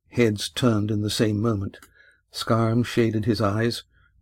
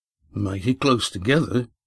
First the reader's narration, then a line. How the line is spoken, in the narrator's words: muttered Red Ian